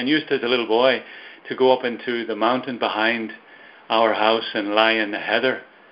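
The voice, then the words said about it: Irish Belfast accent. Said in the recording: “You can hear from my accent that I'm from Ireland, maybe. From Belfast, actually”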